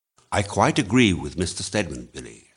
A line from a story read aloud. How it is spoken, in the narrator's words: said Drummond